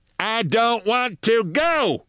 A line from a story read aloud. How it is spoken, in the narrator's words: shouted Mrs